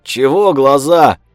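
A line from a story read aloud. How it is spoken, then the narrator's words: Snapped, red-haired woman. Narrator (Russian): Огрызнулась рыжая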